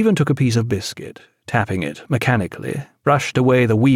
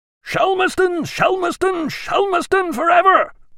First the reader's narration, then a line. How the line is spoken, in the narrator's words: they cried